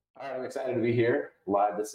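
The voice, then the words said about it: Slightly raised, upbeat podcast voice. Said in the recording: “I transitioned from talking voice to podcast voice. Did you just notice the little uptick?”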